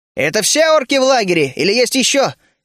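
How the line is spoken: Shouting. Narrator (Russian): крикнул я

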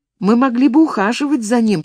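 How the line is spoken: Timid babbling. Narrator (Russian): пролепетала Марта

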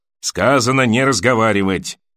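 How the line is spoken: Grumbling. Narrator (Russian): проворчал гребец

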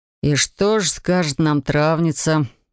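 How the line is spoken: Lazy smirk. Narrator (Russian): лениво усмехнулся Имаир

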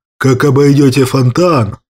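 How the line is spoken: Grumbled. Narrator (Russian): буркнул Кощей

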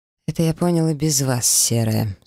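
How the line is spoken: Dry reply. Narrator (Russian): сухо ответил тот

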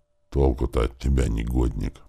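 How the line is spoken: Grumbling. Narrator (Russian): проворчал Гарольд

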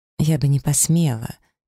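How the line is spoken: Heavy sigh. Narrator (Russian): тяжело вздохнула я

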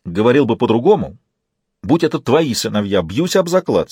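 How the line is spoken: Angry man. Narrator (Russian): сердито произнес мужчина

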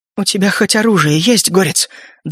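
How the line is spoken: Trembling voice question. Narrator (Russian): дрожащим голосом спросил барсук

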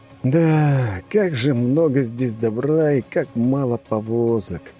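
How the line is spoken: Heavy sigh. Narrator (Russian): тяжело вздохнул мужчина

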